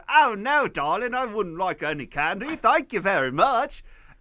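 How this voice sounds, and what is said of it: Poor fake British accent. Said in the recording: “I gave her a fake British accent back ... it's a little Australian ... I can't do the accent ... My bullshit British accent”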